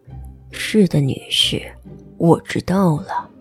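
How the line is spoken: Low reply. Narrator (Chinese): 卡德摩斯低声回应

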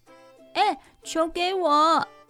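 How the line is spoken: Loud shout. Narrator (Chinese): 糟糟大叫

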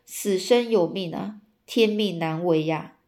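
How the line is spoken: Sorrowful lamenting sigh. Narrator (Chinese): 诸葛亮眼见和自己休戚相关的这个本命灯啊，灯火瞬间熄灭，感叹长叹哦，说

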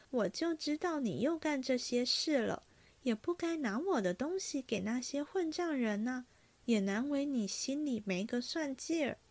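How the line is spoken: Sighing. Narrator (Chinese): 袭人叹道

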